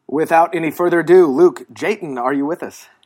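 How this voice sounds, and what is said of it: Radio announcer voice. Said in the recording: “my little radio announcer voice”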